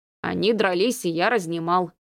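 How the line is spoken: Unnatural, obsequious, ingratiating voice. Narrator (Russian): ответил он не своим голосом, слишком угодливым и заискивающим

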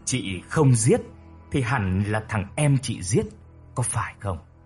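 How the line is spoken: Harsh, menacing voice. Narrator (Vietnamese): Cô ta gằn giọng

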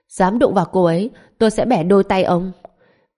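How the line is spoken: Cold shout, from cauldron. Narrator (Vietnamese): trong chiếc vạc truyền đến một tiếng hét lạnh lùng

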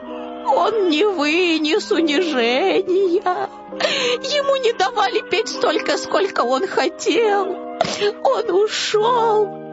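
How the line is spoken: Sobbing. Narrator (Russian): всхлипывала Стина Фина

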